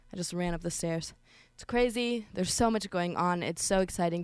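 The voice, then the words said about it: Out of breath, panting speech. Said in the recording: “Can you hear that? I'm out of breath.”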